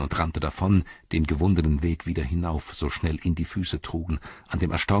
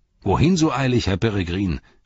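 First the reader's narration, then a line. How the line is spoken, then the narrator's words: Called out. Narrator (German): rief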